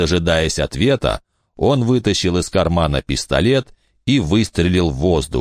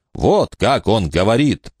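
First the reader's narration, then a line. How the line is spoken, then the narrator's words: Booming. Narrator (Russian): прогремел Фальконер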